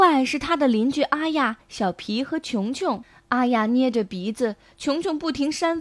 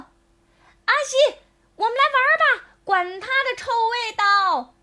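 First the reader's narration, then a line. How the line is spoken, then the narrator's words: Shouting. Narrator (Chinese): 有人大叫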